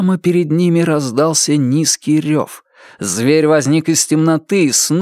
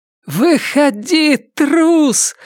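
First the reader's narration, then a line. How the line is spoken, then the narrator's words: Huntress shouting. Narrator (Russian): закричала охотница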